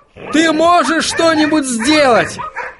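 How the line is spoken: Yelling in ear. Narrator (Russian): заорал он Отто прямо в ухо

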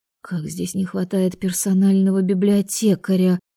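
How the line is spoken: Irritated exhale. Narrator (Russian): выдохнула раздраженно

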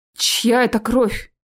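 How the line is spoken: Trembling question. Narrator (Russian): дрожащим голосом спросил я

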